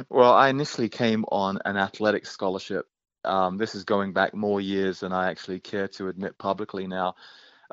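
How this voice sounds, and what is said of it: British accent. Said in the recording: “that is not a New England accent or a Southern accent. That is a gorgeous British accent.”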